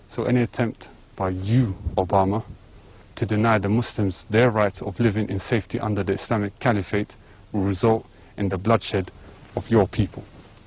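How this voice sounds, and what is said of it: British-sounding English accent. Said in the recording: “sound kind of British there ... most people who learn English learn it with a British accent”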